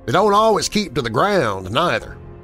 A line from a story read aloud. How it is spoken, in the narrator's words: came in Hank's slow, heavy drawl